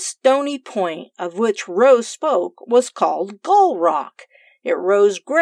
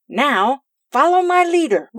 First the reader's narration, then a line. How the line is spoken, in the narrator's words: Rose cried